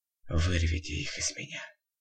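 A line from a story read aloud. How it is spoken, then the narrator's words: Quiet but firm. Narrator (Russian): тихо, но твердо произнес в ответ Зигмунд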